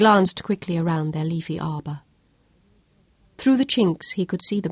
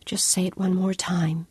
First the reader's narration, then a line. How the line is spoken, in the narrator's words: she breathed huskily